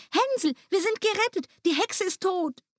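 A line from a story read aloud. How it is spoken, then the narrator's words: Calling out. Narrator (German): Gretel rief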